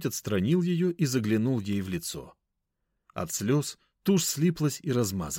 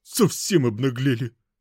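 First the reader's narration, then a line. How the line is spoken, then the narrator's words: Muttered. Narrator (Russian): буркнула проходящая мимо тетка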